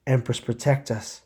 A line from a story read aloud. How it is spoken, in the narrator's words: she exclaimed as she realized how quickly the bugs were gaining on them